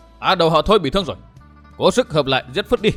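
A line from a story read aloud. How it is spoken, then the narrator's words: Big man, loud yell. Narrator (Vietnamese): một tên đại hán hét vang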